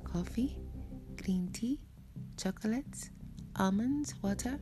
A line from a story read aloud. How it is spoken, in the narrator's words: Well-dressed, humble and subdued, the train attendant offered me softly